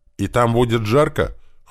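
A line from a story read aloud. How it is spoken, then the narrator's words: Snorting remark. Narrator (Russian): хмыкнула Чеки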